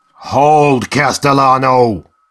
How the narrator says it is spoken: he cried

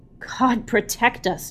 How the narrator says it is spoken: Jamal breathed

